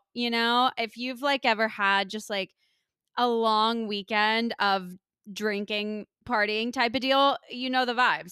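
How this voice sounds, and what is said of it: Rough, strained hoarse voice. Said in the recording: “my voice sounds really rough on this episode. I kind of lost it over the weekend ... it's taken like some extra effort to get out ... It just kills your voice”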